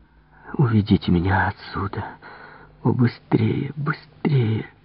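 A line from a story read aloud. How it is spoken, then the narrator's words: Trembling moan. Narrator (Russian): простонала она, дрожа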